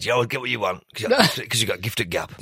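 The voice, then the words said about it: Lowered-voice impression of mother. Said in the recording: “The impression you do of your mum is... ... Why has your voice gone lower?”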